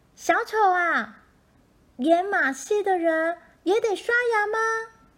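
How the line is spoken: Shouting hard. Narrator (Chinese): 莎莉在他身后用力喊

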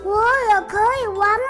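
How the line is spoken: Loud question. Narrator (Chinese): 小师傅大声的问

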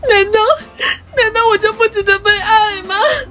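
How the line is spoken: Crying. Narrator (Chinese): 他就哭着说

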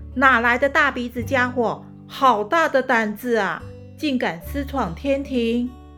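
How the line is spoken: Loud angry scolding. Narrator (Chinese): 雷公大声呵斥

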